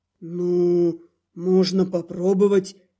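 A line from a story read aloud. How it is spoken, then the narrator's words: Hesitant reluctant agreement. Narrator (Russian): неуверенно согласился Старх, скорее не желая перечить хозяйке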